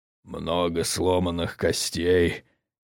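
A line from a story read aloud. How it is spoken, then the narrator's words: Bear's unhealthy wheeze. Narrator (Russian): медведь нездорово хрипит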